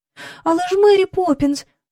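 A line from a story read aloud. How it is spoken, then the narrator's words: Sharp cry. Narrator (Ukrainian): скрикнула Джейн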